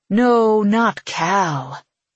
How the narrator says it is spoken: he says, purring

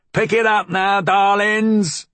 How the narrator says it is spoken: he hollered

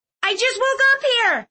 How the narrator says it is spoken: Clove snapped

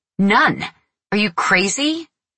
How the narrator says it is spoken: She had said angrily

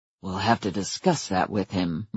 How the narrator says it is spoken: murmured Adam

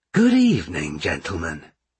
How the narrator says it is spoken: he said in his friendliest tone

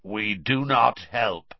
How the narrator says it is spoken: he said, in a harsh, croaky voice

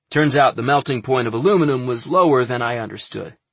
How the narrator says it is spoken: he said

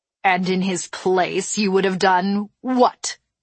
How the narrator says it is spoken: she snapped

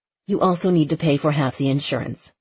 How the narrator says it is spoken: she said

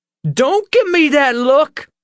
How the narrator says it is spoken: she shrieked

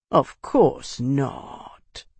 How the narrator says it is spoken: Bernard drawled

